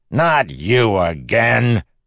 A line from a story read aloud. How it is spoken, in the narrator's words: The beggar cackled